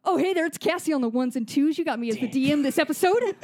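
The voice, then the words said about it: Radio DJ voice. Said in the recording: “DJ voice”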